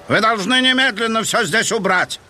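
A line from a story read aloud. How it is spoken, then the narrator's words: Booming. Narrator (Russian): прогремел он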